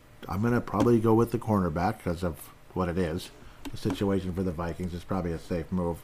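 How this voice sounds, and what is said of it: Hoarse, throat-clearing voice. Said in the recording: “Sorry for clearing my throat every 10 seconds. ... It's like I have a frog in my throat today.”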